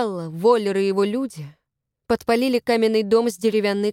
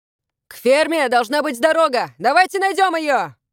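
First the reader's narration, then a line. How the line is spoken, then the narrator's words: Shout. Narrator (Russian): крикнул Калеб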